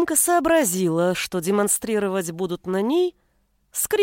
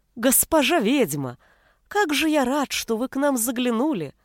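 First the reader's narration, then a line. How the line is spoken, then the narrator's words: Joyful smiling man. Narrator (Russian): Радостно улыбался мужчина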